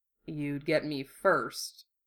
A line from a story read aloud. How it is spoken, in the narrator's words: Hiro muttered, conceding